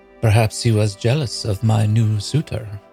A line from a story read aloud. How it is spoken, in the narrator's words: purred